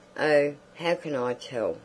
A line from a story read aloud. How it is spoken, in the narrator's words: said Josephine crossly